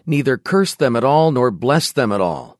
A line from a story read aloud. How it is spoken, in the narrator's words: The king of Moab, discouraged and distressed, exclaimed